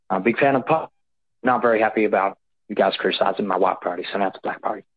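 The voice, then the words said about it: Slight southern accent. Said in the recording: “weird little southern accent ... Weird little accent.”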